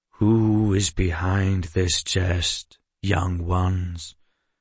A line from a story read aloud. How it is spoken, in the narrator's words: the knight asked, his voice slow and melancholy